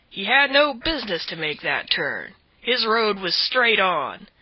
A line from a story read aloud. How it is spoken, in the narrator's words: said the man roughly